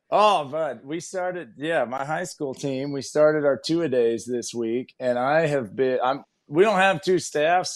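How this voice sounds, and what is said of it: Worn-out coach voice. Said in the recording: “I think my voice sounds a little better than yours. You sound like you have coach voice.”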